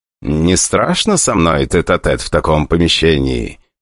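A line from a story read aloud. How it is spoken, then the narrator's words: Purring, suggestive question. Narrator (Russian): поинтересовался я слегка кошачьим голосом, чтобы она точно считала намек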